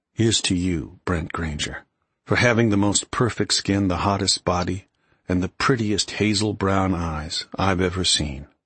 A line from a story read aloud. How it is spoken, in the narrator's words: Graham murmured